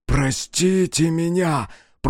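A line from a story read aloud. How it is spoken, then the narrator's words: Whispered. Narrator (Russian): прошептал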